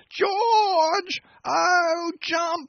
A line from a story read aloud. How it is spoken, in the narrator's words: another wild screech